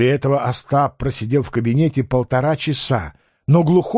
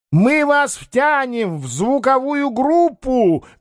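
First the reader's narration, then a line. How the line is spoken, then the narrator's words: Shouted while leaving. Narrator (Russian): крикнул он, скрываясь за дверью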